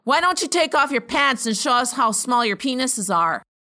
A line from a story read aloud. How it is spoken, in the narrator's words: I would have yelled out something like